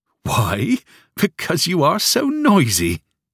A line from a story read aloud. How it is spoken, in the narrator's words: said, laughing